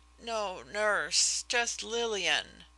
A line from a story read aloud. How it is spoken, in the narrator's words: I faltered